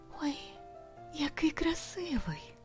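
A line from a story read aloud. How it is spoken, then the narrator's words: Whisper. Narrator (Ukrainian): прошепотіла дюймовочка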